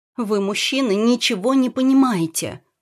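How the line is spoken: Exclaiming. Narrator (Russian): воскликнула Ната

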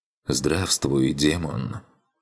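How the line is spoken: Quiet hoarse voice. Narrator (Russian): Негромкий с хрипотцой голос раздался

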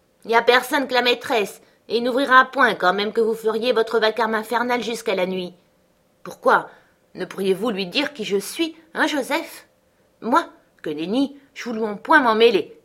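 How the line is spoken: Grumbling. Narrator (French): grommela

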